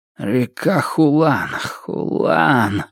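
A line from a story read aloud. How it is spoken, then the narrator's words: Frowning mutter under breath. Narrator (Russian): бормотал Цзяо Юнгуй себе под нос, сильнее и сильнее хмуря брови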